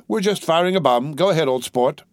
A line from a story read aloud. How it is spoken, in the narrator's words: a voice shouted cheerfully